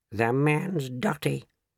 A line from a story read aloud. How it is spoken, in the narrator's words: muttered Grandma Josephine